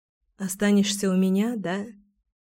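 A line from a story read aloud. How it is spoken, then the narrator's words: Whispered. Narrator (Russian): шепнула я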